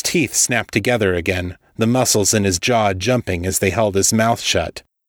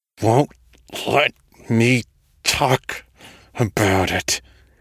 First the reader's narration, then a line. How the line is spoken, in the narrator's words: said, forcing the words through gritted teeth